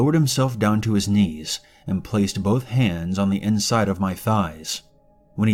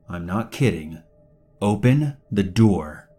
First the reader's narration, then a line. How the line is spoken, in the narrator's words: insisted one more time, in a stern voice